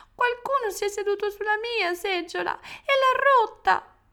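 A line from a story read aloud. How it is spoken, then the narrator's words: Tiny-voiced shout. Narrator (Italian): l'orsetto piccolo piccolo gridò con la sua voce piccola piccola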